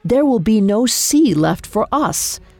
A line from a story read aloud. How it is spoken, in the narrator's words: His face a bluster of rage, he roared